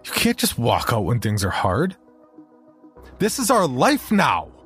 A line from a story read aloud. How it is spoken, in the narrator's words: I shouted in her face